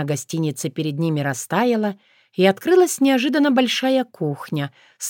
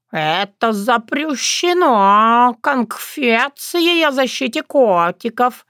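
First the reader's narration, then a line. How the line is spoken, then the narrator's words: Loud indignation. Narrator (Russian): громко возмущался Терентий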